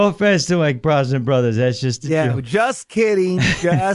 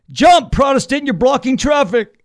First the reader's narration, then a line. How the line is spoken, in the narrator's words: The cop yells